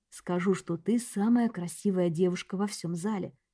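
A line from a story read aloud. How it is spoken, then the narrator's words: Whisper. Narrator (Russian): прошептал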